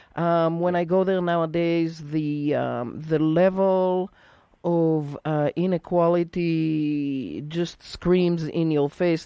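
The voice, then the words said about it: Israeli accent. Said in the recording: “I have an accent that is not American... I'm actually from Israel”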